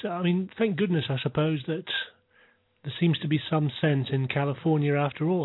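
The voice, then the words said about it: British accent. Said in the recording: “I'm from the UK, of course, as you can probably tell by my accent”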